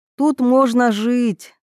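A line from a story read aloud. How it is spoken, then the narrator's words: Breathy exhale. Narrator (Russian): выдохнула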